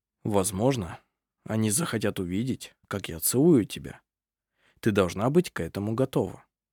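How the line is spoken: Soft. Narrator (Russian): Арф мягко произнес

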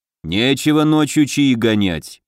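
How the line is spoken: Grumbled. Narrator (Russian): проворчал Оргдон

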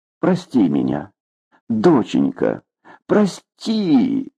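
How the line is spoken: Sobbing. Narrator (Russian): Рыдая, Нелли

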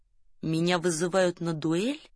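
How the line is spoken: Hoarse, strained, through teeth. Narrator (Russian): Румын сипло, словно через силу, цедил французские слова

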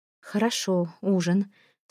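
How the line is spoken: Through gritted teeth, suspicious. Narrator (Russian): сквозь зубы произнесла я, заподозрив, что все это не просто так

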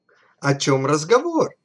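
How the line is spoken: Joyful exclamation. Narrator (Russian): радостно воскликнул Ломанческий

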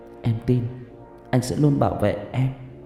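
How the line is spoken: Soft gentle murmur. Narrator (Vietnamese): Thi nằm trong lòng của Thạch Xanh khẽ nói

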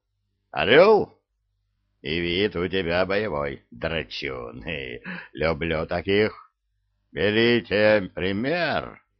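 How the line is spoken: Growled. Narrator (Russian): рыкнул он на остальных

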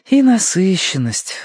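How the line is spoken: Sighing. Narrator (Russian): вздохнула Верити

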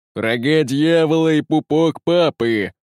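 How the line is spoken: Impatient tyrant roaring. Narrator (Russian): нетерпеливо взревел тиран

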